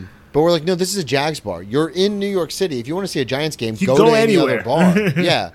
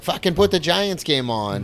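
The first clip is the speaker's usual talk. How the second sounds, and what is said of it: Put-on Boston accent. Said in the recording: “It was a Boston accent, but that's the only one I know how to do.”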